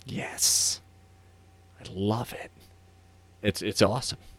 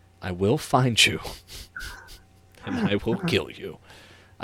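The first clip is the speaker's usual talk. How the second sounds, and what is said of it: Liam Neeson impression. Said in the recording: “his best Liam Neeson impression”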